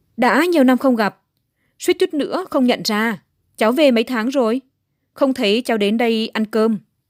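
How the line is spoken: Cheerful loud laughing. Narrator (Vietnamese): Ông chủ hét lên, cười nói vui vẻ

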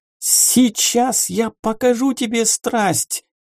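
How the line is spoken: Shrieked. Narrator (Russian): Завизжал или завизжала Герент

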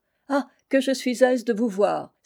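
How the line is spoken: Warm, delighted exclamation. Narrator (French): s'écria Christine en l'accueillant avec les démonstrations de l'amitié la plus vive

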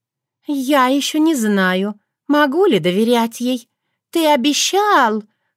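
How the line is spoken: Capricious drawl. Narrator (Russian): капризно протянула красавица

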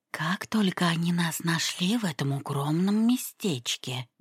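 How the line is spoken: Whispered in ear. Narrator (Russian): Гэбриэл принялся шептать мисс Бисли на ушко

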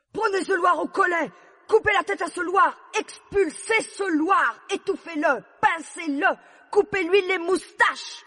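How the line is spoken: Queen screaming. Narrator (French): hurla la reine

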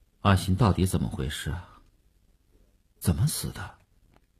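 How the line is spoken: Sullen muffled voice. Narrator (Chinese): 声音还是闷着气的

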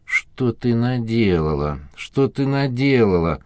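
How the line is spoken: Moaning. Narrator (Russian): стонал Корнет

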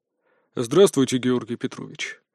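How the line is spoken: Businesslike, hidden anger. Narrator (Russian): деловым тоном произнес граф, хотя голос его был полон скрытого гнева

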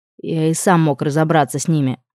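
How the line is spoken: Grumbling. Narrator (Russian): буркнул он

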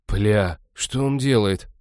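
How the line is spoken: Shocked exhale. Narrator (Russian): потрясенно выдохнул Натан

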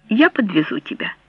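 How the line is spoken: Plain. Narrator (Russian): сказал он

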